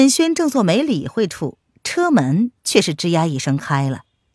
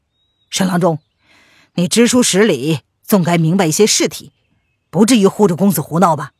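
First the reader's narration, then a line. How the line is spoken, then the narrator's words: Angry. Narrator (Chinese): 恼怒的道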